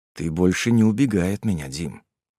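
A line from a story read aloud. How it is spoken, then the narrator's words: Cold. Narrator (Russian): холодно сказал он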